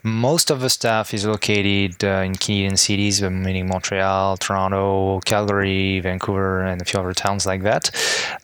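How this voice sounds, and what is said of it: French accent speaking English. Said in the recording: “your accent, I mean, are you originally from Montreal or are you a relocated French person to Montreal? ... I think my accent can still talk for me. I was originally born and raised in France”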